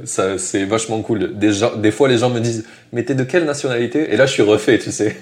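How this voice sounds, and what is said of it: Strong southern French accent. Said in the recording (French): “T'as un petit accent du sud, toi, non ... en français, j'ai un gros accent du sud”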